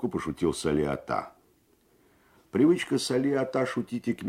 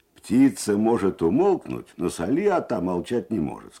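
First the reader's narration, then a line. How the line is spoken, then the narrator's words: Plain. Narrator (Russian): сказал кто-то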